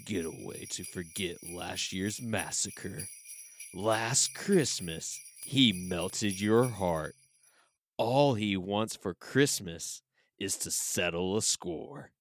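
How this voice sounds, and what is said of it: Dramatic movie trailer narrator voice. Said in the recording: “movie voice”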